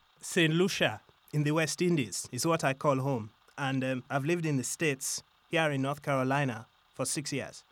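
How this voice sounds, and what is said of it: Musical St. Lucian accent. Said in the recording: “many people commented on my accent ... people say, oh, I love your accent. It's so musical.”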